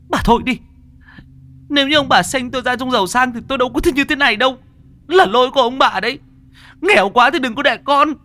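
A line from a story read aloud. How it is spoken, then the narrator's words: Hissing shriek after scolding. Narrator (Vietnamese): bị cha mẹ chửi, con lại rít lên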